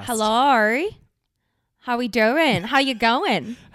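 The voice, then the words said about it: Put-on Australian accent. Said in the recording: “What's the Australian accent today? ... We do annoying accents.”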